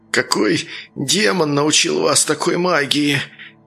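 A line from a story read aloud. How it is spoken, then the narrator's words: Slurred breathless exhale. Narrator (Russian): Едва ворочая языком, выдохнул он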